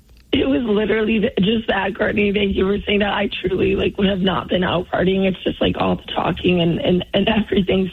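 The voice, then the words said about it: Hoarse, strained, nearly lost voice. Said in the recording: “Sorry I lost my voice, so apologies to all the listeners... your voice sounds that way”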